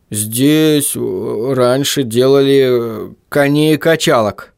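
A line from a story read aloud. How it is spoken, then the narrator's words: Forced out. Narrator (Russian): выдавил тот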